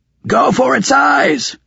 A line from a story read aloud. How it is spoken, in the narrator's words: Raven yelled